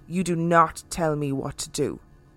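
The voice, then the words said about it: Very deep, serious voice. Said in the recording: “said in a very deep and serious voice”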